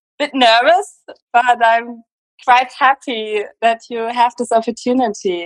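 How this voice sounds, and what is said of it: German-accented English. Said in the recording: “Germany. I hope that's not a problem with the accent. ... I love your accent. It's so exotic.”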